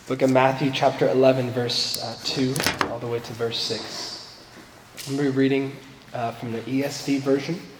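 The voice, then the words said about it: Sick-sounding, cold-affected voice. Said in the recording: “I'm still battling a cold, and so just excuse my voice today.”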